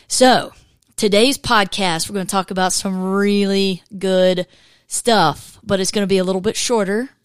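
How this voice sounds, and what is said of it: Hoarse, cracking, losing voice. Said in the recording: “I'm struggling with losing my voice ... if I crack or, you know, kind of change pitches a little bit in the middle of this podcast, it's just because my voice”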